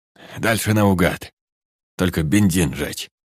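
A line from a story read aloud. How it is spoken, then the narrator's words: Hoarse voice. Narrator (Russian): хрипло произнес он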